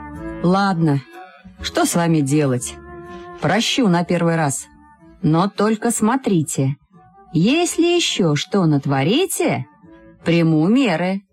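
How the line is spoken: Stern, sudden. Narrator (Russian): Милиционер грозно нахмурился и вдруг сказал

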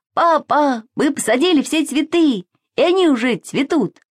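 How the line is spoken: Shouted. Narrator (Russian): Саша закричал

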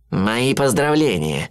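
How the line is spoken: Gloomy. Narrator (Russian): мрачно произнес живодер

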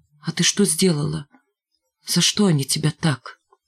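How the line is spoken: Quiet hesitant question. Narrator (Russian): тихо и нерешительно спросил

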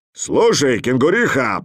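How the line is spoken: Roaring bear. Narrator (Russian): проревел медведь

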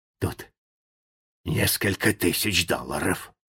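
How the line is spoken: Whispered. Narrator (Russian): Джо прошептал

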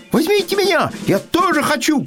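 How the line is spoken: Shout. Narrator (Russian): крикнула белка

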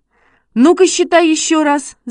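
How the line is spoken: Shouted. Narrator (Russian): закричал Шишкин

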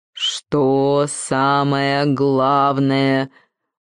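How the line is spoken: Muffled repetition. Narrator (Russian): Глухо повторил ключ

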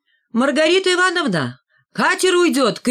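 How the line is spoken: Shouted. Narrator (Russian): крикнул Валька

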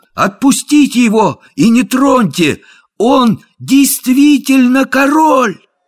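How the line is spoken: Ringing shout. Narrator (Russian): Том Кенти в своем царственном одеянии звонким голосом крикнул

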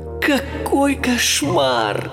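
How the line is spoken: Moaning. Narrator (Russian): простонал Майло

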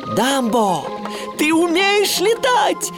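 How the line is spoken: Joyful shout. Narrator (Russian): радостно крикнул Тимоти

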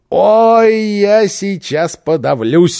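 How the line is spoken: Exclamation. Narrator (Russian): воскликнул Босса

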